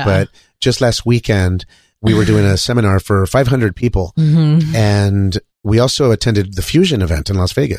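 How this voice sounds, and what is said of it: Hoarse, strained voice. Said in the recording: “my voice is a little bit fucked up right now ... we were talking loud”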